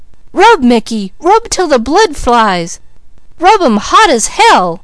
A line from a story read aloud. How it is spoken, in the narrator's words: Peaches, with wide eyes, her breath coming faster and faster, cried